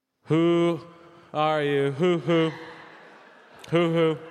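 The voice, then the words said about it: Imitates another person's singing voice. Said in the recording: “my impression of Big Mike doing the Who's Who Are You”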